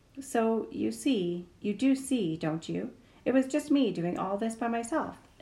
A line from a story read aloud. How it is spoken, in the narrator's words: exclaimed the fox